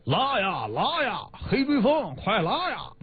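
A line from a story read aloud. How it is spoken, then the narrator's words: Loud holler. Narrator (Chinese): 农场主 大声吆喝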